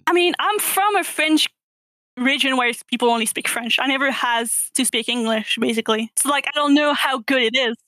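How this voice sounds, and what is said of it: Strong French accent in English. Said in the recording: “I think you have a big French accent. ... I think your accent is clearly French, yes. ... You can't hide that you're French”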